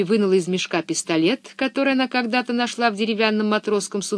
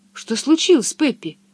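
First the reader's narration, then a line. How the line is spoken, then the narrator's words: Frightened question. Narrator (Russian): испуганно спросила Анника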